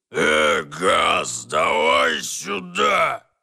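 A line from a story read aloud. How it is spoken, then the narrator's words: Roaring. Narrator (Russian): проревела цель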